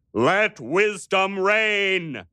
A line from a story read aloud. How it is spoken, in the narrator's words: he thundered at them